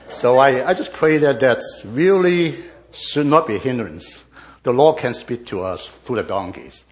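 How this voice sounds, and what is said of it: Speaker with a natural foreign accent. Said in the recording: “my voice getting lower and lower. Maybe I have an accent. Well, I know I have an accent, naturally.”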